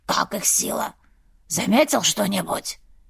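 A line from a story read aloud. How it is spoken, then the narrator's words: Heavier hoarse wheeze. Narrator (Russian): Первый еще сильнее захрипел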